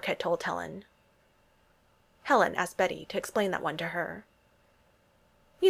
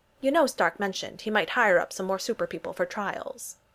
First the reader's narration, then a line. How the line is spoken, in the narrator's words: Helen said